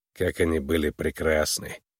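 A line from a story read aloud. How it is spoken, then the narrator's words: Sad. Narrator (Russian): грустно произнес Вой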